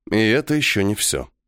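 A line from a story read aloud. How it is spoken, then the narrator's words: Gloomy. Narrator (Russian): мрачно произнес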